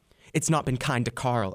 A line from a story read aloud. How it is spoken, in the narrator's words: Ebba snapped